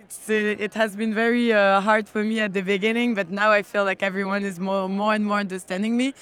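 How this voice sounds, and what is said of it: Strong French accent. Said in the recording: “my French accent is actually too strong”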